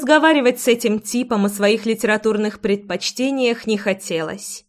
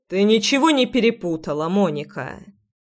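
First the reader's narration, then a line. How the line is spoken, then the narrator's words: Calm, non-aggressive. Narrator (Russian): Спокойно и без агрессии ответил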